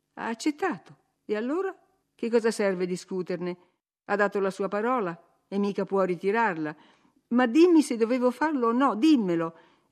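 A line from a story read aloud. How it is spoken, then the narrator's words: Irritated exclamation. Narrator (Italian): esclamò con tono irritato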